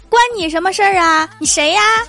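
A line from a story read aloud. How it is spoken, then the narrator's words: Angry shout. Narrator (Chinese): 兽当时就火了，喊了一句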